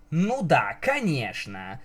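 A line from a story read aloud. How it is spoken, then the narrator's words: Stern. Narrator (Russian): строго смотря на Пегаску, произнесла принцесса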